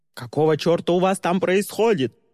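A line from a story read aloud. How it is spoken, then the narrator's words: Roar from below. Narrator (Russian): проревел снизу голос Тристина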